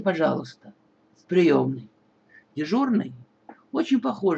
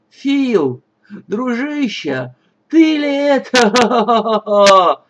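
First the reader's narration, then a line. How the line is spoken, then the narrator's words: Roar. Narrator (Russian): взревел Джон Смайлз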